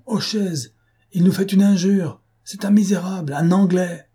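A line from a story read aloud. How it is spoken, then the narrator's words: Crowd shouting. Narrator (French): cria-t-on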